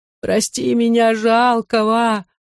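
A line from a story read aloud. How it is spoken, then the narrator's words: Whining. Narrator (Russian): скулили их ныкали стены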